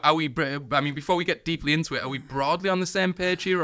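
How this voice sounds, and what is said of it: Usual voice. Nothing is said of it.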